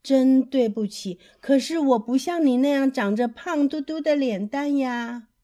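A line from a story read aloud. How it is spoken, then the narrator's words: Sighing. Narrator (Chinese): 企鹅太太叹了一口气，说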